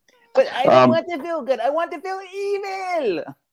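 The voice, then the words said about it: Bad Skeletor impression. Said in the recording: “Worst Skeletor impersonation ever.”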